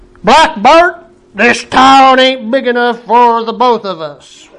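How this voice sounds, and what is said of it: Put-on Western cowboy accent. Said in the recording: “How's that for my Western accent?”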